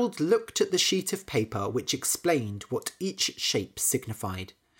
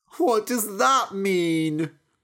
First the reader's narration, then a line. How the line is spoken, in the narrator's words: cried Harold